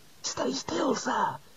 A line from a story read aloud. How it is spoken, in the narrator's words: hissed Ponder